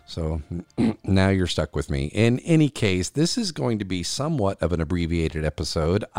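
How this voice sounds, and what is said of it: Slightly off voice, sore throat. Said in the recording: “my voice sounds a little bit different, not quite on ... with a lingering cough and sore throat”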